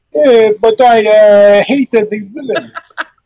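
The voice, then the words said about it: Imitates another person's voice. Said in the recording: “your Fulci impersonation”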